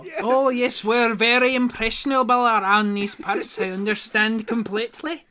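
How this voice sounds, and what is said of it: Put-on leprechaun-style Irish accent. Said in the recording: “The funny thing about this accent is that it is also a very long form of prank... I'm just kind of stuck talking like a leprechaun.”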